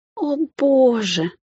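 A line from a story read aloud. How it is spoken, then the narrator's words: Moaning. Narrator (Russian): застонала Ники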